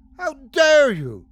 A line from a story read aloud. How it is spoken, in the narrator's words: screeched Mavis ... with fury